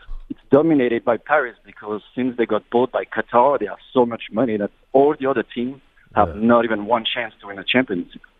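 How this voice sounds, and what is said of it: French accent. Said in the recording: “What is that accent? ... I'm from France. ... I'm French”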